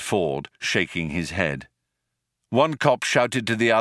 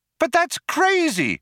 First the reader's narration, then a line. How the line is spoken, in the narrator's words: cried Trillian